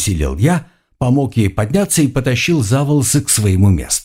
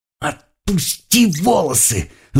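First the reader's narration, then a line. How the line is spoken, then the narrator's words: Angry whisper. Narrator (Russian): зло прошептала она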